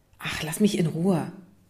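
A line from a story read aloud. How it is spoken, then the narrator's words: Hissing. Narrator (German): zischte Isa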